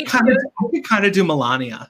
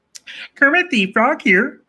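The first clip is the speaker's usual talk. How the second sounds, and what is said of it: Kermit the Frog character voice. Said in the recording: “But she chose Kermit for ... Kermit. ... Oh, that's good. ... That's really good.”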